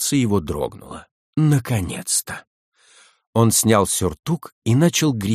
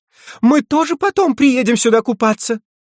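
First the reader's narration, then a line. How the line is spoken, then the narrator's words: Joyful shout. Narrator (Russian): Октавия радостно закричала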